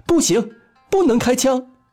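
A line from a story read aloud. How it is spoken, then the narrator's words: Sudden loud shout. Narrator (Chinese): 老辛，阿富忽然大叫一声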